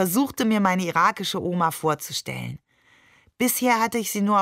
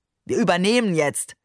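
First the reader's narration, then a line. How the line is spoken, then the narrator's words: Tossed-off remark. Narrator (German): warf er den Passagieren entlang des Korridors zu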